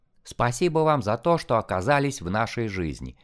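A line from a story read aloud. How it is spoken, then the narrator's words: Plain. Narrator (Russian): сказала Ирина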